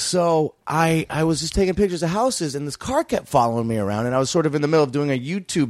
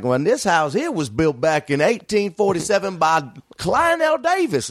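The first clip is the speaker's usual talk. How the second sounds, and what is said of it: Thick put-on Southern accent. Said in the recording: “pretending to be a tour of, you know, with a thick southern accent”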